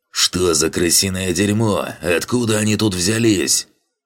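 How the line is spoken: Hateful growl. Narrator (Russian): прорычал Дранг, с ненавистью

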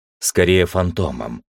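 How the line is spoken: Plain. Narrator (Russian): ответил я

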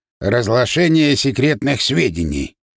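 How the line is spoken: Wry grunt. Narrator (Russian): хмыкнул

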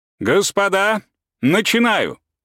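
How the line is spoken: Shout. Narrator (Russian): крикнул он

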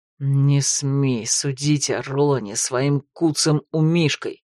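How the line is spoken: Hissing. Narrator (Russian): прошипел Влад

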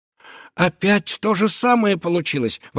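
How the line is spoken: Exclaimed. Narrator (Russian): воскликнула сказка

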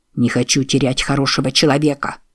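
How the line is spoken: Angry reply. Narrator (Russian): сердито ответил Мик

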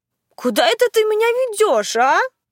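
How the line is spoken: Struggling exclamation. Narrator (Russian): воскликнула я, пытаясь вырваться из его цепкой хватки

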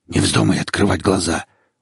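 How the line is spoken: Hoarse menacing male voice. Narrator (Russian): услышала я хриплый голос насильника

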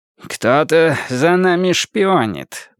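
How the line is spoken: Muttering to himself. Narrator (Russian): буркнул про себя Слоттер

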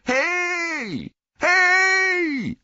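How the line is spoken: Calling out. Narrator (German): rief er

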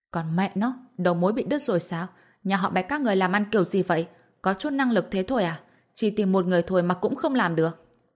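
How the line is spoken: Reckless furious shout. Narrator (Vietnamese): Bạch Diệp Phi không thèm đếm xỉa đến mọi thứ mà hét lên

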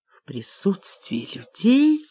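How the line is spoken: Whispered. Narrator (Russian): прошептала она

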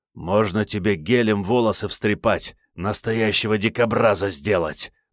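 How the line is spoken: Hoarse rasp. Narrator (Russian): прохрипел Керст

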